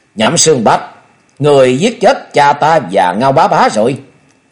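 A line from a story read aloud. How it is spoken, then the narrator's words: Murderous loud shout. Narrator (Vietnamese): Thôi Dân sát quang bừng bừng lớn tiếng quát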